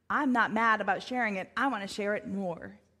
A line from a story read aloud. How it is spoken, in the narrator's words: says Moses